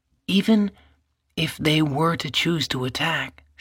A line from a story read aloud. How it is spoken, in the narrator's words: she murmured to him